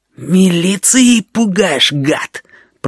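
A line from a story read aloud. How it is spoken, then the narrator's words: Hissing. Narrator (Russian): прошипел гусыня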